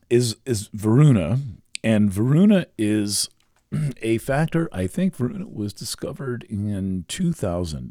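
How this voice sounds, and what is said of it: Slightly scratchy voice. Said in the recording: “my voice is a little bit scratchy right now ... it's frozen up my larynx a bit”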